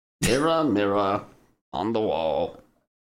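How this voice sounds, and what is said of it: Impression of Lord Farquaad's voice. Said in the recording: “Give your best impersonation. ... Lord Farquaad”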